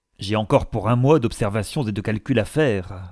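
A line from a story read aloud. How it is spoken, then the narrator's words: Sour, sharp reply. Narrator (French): répondit Palmyrin Rosette d'un ton aigre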